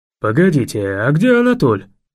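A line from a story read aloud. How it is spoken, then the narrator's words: Exclaiming. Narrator (Russian): воскликнул Паша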